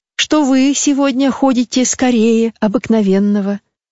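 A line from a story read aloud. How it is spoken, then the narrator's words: Laughing reply. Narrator (Russian): отвечала она, смеясь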